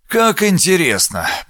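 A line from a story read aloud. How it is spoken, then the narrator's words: Muttering. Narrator (Russian): пробормотал он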